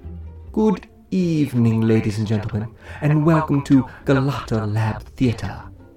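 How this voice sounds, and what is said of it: Formal Masterpiece Theater host voice. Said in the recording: “in my best Masterpiece Theater voice,”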